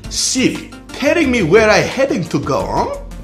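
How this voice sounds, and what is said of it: Put-on foreign accent. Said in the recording (French): “see if Siri recognizes you with your accent.”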